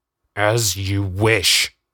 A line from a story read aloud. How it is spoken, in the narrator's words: Darren snarled